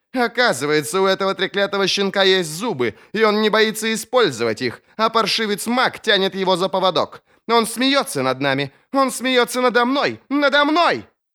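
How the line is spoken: Shouting. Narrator (Russian): Закричал Сульт

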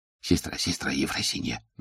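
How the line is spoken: Crowd whispering. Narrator (Russian): зашептались в толпе

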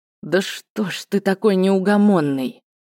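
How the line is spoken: Tired grumble. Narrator (Russian): Устало буркнул Скарт

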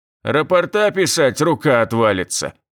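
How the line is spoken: Stern. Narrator (Russian): строго сказал он

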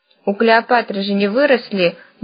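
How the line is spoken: Grumbled. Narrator (Russian): буркнула грабыня

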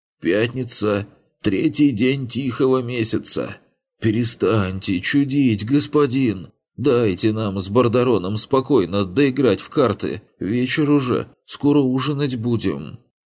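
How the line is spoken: Displeased old man's creak. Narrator (Russian): Старик издал булькающий звук горлом, выражал недовольство, проскрипел

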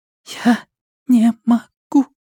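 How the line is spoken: Halting whisper, young girl. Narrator (Russian): запинаясь, прошептала девочка

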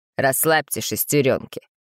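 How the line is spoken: Unpleasant snort. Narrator (Russian): неприятно фыркнул инспектор

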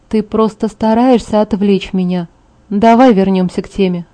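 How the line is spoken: Sighing. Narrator (Russian): вздохнул

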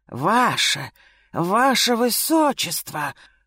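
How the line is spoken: Exclaim. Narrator (Russian): воскликнул

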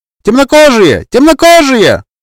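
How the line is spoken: Shrill shriek. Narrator (Russian): визгливый голос Эдины

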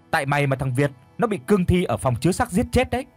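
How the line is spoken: Screaming while running. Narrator (Vietnamese): thằng Tèo bỏ chạy mà miệng thì cứ gào thét

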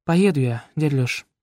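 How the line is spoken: Weary. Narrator (Russian): устало выговорила она

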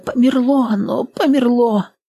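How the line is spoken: Moaning. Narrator (Russian): Застонала

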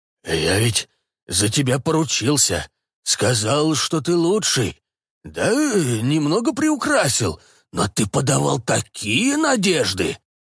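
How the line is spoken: Whistling terrified whisper. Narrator (Russian): голос его свистел, переходя на шепот от переполняемого ужаса, страха облажаться перед главным управлением

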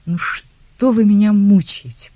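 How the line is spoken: Moaning. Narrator (Russian): простонала она

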